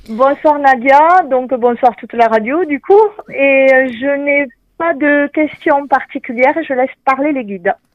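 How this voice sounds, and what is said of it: Strong regional Saint-Gaudens accent. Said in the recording (French): “L'accent. ... de Saint-Gaudens avec un super accent ... Toujours l'accent.”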